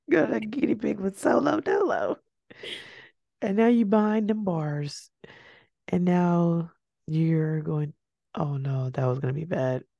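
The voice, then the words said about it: Weak, failing voice. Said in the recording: “my voice is really leaving me y'all”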